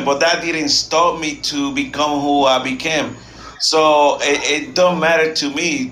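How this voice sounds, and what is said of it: Non-native English accent. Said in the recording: “you know already my accent, so I couldn't even speak English ... my freaking accent”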